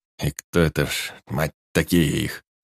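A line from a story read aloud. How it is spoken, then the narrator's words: Creaky gnome voice. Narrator (Russian): Проскрипел гном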